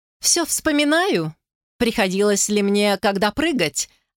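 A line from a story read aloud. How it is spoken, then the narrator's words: With shrill giggle. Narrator (Russian): выговорила с визгливым смешком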